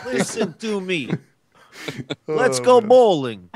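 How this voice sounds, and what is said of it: Put-on Russian accent. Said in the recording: “That's all ... knows. That's his entire ... Russian ... repertoire ... accent. ... Of Russian.”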